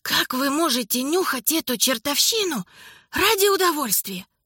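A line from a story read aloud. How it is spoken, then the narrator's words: Rasping. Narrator (Russian): графиня прохрипела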